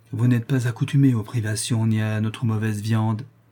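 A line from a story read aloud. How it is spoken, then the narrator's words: Compassionate tone. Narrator (French): dit sœur Olivia d'un ton de compassion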